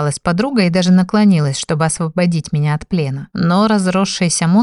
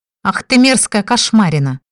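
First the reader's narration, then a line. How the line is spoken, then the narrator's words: Young woman barking angrily. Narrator (Russian): рявкнула на него девушка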